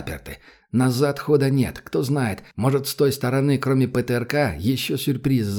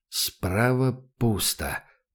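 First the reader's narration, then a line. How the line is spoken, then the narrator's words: Muttering. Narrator (Russian): пробормотал Добрынин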